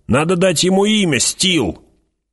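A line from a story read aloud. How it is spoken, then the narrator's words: Shout from crowd. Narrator (Russian): В толпе кто-то крикнул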